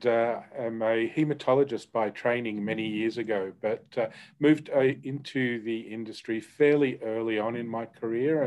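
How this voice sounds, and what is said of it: Australian accent. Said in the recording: “I am Australian, which hopefully people can tell from my accent”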